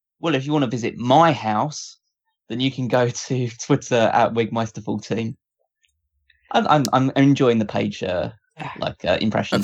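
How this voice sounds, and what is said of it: British accent. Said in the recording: “you are the one here with the British accent”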